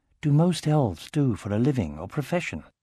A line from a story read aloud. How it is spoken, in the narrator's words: Arya answered just as quietly